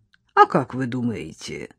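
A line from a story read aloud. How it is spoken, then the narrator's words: Creaky voice. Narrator (Russian): проскрипел гость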